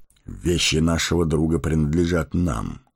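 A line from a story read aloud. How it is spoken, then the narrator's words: Plain. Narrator (Russian): сказал он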